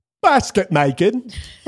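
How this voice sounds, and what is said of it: Put-on English accent. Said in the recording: “I'm going to say this with my best English accent.”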